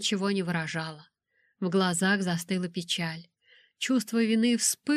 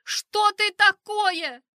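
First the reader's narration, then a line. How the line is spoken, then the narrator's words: Shouting. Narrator (Russian): закричала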